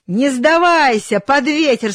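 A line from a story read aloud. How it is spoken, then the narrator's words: Shouting from above. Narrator (Russian): кричал наверху хозяин рулевому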